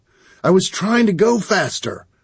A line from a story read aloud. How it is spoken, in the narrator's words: I said, frantically